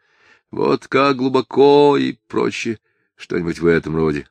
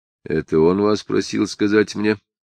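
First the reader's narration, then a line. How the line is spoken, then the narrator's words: Soft inquiry. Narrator (Russian): тихо осведомился Самгин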